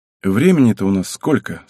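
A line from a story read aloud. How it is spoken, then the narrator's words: Plain. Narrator (Russian): спросил Рудов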